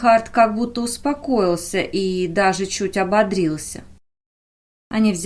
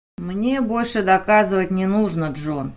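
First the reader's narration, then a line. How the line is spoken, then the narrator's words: Tired. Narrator (Russian): устало произнес Рейнхард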